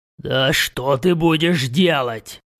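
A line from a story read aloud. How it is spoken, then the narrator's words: Growled. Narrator (Russian): рыкнул я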